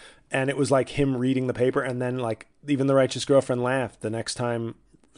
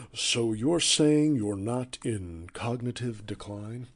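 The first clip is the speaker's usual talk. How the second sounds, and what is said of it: Imitates a TV news anchor's voice. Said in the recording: “my favorite impression from 2020 that I did was the Scott Pelley interviewing Donald Trump ... how much I had nailed the Scott Pelley”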